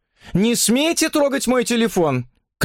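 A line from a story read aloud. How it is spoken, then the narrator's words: Shouted. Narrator (Russian): крикнула молодая особа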